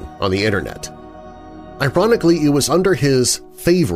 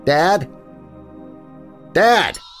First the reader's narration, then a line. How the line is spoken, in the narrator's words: his son Daniel shouted at him